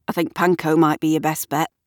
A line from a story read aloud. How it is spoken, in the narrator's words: says Gavin